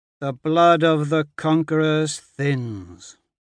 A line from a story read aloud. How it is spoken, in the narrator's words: Alexander drawls through the comms